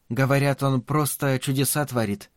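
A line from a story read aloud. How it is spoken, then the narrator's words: Uncertain. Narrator (Russian): неуверенно сказала Марина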